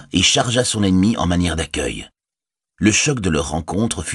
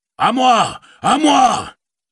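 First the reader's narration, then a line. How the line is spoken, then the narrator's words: Exclaimed. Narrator (French): s'écria Théoden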